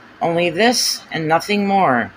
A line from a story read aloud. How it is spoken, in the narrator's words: I muttered